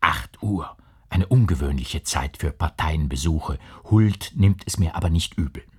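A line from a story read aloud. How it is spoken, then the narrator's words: Whispered with a smile. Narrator (German): lächelnd flüsterte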